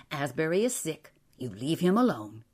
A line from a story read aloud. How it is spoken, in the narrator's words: his mother said sharply